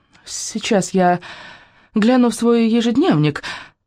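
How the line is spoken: Timid babbling. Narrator (Russian): пролепетала она

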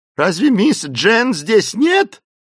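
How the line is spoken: Shouting. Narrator (Russian): закричала Эсмеральда

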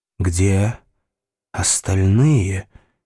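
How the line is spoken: Hoarse question. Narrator (Russian): хрипло спросила она

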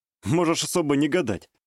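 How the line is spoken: Skeptical snort. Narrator (Russian): хмыкнул

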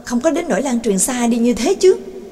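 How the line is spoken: Exclaiming. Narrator (Vietnamese): Đường Mẫn thốt lên

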